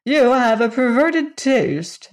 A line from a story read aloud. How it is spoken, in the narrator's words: snapped Margalot, much annoyed at this frank criticism